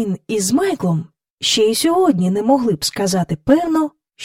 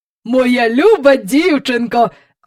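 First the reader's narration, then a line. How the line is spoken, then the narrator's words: Proud exclamation. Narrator (Ukrainian): вигукнув містер Перук, з гордістю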